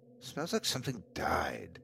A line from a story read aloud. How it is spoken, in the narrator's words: I muttered to myself